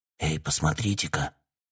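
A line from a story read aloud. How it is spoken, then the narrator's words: Whispered. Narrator (Russian): прошептал Текс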